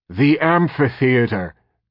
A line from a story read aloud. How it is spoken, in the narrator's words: Kermadec shouted